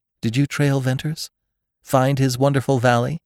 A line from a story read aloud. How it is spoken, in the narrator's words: she asked eagerly